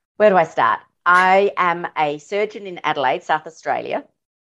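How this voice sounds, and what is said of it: Australian accent. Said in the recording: “I'm going to be so excited about your accent all show.”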